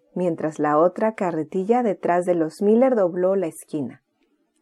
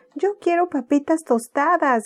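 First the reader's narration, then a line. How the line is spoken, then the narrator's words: Shouting. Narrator (Spanish): gritaba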